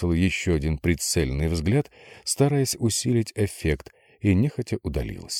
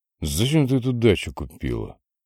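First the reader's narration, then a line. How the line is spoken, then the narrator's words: Displeased grumble. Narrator (Russian): Недовольно проворчал Гоша, предвкушая скандал с Викой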